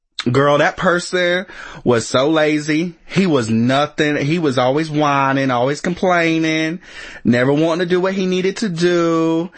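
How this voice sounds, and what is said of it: Casual gossipy grocery-store character voice. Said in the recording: “in your grocery store voice”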